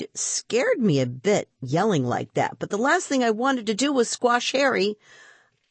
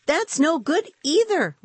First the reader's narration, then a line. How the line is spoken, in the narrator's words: Rima cried